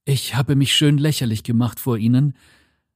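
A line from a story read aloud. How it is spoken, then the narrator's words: Panting. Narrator (German): keuchte er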